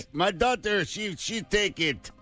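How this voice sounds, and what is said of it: Mock Russian accent. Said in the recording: “All your European accents are exactly the same. ... But then it's a Russian accent.”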